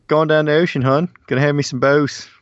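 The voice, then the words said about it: Put-on Baltimore accent. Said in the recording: “You do that a little better than I do ... that accent ... Baltimore talk”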